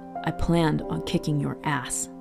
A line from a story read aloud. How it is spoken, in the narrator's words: the young man growled